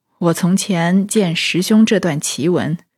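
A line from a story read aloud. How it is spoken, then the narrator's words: Sighing. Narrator (Chinese): 空空道人便点头叹道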